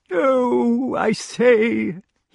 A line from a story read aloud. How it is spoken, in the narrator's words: he wailed